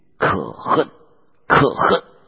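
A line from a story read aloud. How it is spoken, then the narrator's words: Bitter dying cry. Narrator (Chinese): 咬牙皆碎而死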